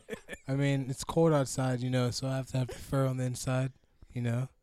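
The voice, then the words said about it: Hoarse, nearly lost voice. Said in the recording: “I lost my voice episode. ... Get a damn Halls or something.”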